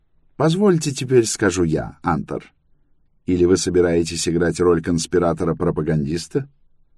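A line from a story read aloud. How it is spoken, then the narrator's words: Calm. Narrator (Russian): Мун спокойно сказал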